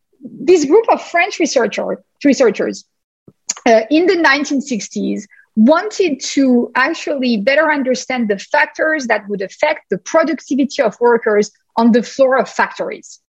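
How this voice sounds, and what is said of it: French-American accented English. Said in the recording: “as you can hear to my accent, I'm not a pure Bostonian. I'm a hybrid American-French Bostonian.”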